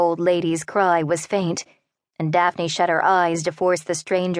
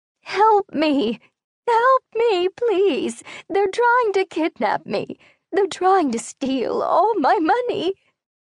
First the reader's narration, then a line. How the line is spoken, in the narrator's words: The cries